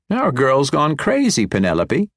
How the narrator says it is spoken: Kipper said with a snort

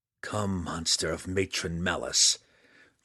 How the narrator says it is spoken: Drizzt growled

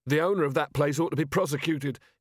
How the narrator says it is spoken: he shouted

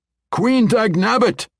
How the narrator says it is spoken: Bungalow Thump shouted

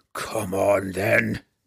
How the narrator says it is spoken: Brunner roared at them both

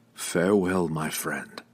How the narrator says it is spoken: Drizzt whispered, trying futilely to keep his voice from breaking

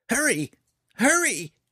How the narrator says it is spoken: Fret cried, watching them anxiously

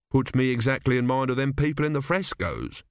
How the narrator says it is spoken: he said

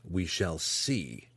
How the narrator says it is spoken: he growled

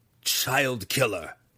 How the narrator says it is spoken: he growled

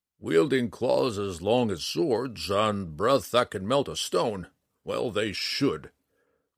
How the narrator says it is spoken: grumbled Matthias

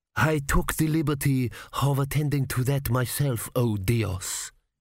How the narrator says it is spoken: he purred

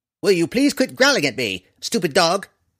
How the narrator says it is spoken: Tifonus snapped at the yellow canine

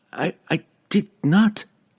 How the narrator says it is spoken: Regis stammered from across the chasm

